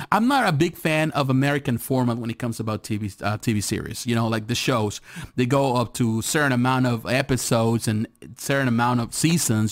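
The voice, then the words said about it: Accented, fast speech. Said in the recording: “I speak fast. My accent gets in the way.”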